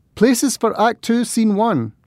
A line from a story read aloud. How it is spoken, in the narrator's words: I called out to Danielle and the cast